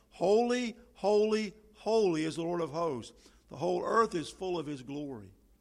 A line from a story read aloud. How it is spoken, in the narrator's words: For these sacred beings continually cried